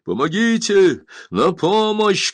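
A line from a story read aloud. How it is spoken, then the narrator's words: Shouting for help. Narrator (Russian): кричали там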